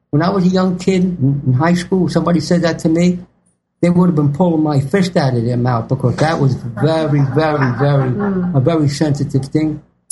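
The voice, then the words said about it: New York City accent. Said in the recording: “you speak like you have a mouthful of marbles ... You've got an authentic New York City accent”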